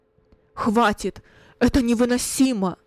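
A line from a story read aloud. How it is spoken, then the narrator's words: Loud trembling voice. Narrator (Russian): произнес громко Кунерих дрожащим голосом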